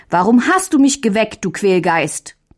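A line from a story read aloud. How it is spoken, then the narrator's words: Angry call. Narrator (German): rief Mündlein böse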